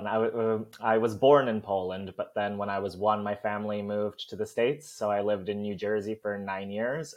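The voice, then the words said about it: Soft American-Canadian accent with twang. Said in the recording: “it sounds American, but it sounds more Canadian because it's very soft. And then I have these twangs now because of being here for some time ... where's that accent from? ... are you Irish? ... Are you Canadian?”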